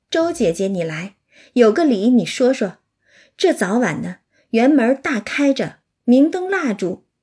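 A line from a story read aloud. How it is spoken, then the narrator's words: Laughing. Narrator (Chinese): 尤氏 笑道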